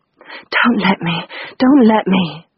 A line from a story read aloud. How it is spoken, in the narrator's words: gasped